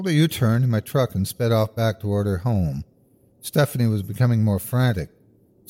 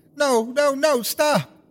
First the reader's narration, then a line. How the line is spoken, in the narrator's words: She screamed again